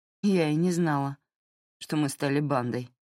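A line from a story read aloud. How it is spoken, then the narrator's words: Grumbled. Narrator (Russian): проворчала Кензи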